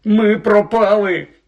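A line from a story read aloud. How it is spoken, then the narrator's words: Groaning. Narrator (Ukrainian): простогнав він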